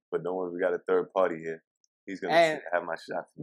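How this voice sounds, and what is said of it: Hoarse, sick-sounding raspy voice. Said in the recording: “You messed me up with that voice... he's not doing the Batman voice... he's really sick”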